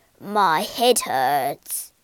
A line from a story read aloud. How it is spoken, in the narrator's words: groaned Pinchbeck